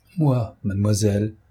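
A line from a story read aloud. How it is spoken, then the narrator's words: Plain. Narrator (French): dit Joséphine Balsamo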